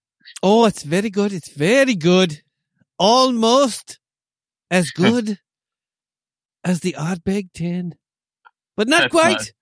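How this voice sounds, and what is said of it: Badly done put-on accent. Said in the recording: “That's a terrible accent. ... It's terrible. I know.”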